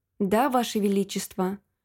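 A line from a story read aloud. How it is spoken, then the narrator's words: Plain. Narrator (Russian): ответила маркиза Флетчер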